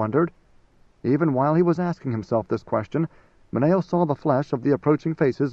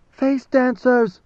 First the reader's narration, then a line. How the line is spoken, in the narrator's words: someone screamed